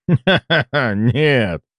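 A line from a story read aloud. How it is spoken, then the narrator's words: Laughing. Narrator (Russian): рассмеялся патриарх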